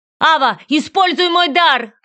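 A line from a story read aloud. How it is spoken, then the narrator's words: Shout while fighting. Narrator (Russian): крикнул он, пытаясь отбиваться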